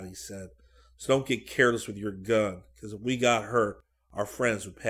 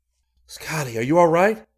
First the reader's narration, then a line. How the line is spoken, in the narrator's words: Rick asked anxiously